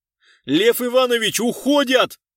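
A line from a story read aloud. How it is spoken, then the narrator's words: Shouted. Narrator (Russian): закричал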